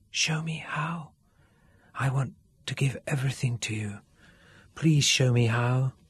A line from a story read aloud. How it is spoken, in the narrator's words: she whispered